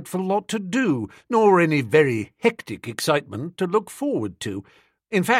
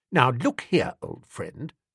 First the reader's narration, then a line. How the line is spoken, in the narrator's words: I said